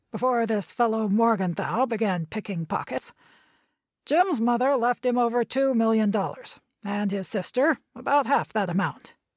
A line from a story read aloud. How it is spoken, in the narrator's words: cackled suddenly